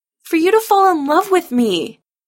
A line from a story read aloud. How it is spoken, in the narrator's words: Adam shouts back